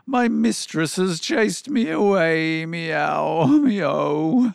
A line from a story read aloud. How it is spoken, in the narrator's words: the cat wailed